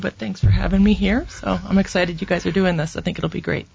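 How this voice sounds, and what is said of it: Slightly hoarse voice. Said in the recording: “I'm a little hoarse because of also the allergies coming through”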